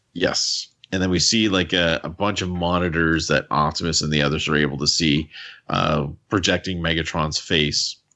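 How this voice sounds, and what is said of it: Canadian accent. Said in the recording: “my Canadian accent, it can make people sleepy”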